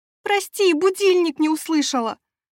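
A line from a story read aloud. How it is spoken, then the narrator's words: Shouted. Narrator (Russian): прокричала я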